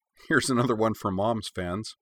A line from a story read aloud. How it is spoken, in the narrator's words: laughed, and said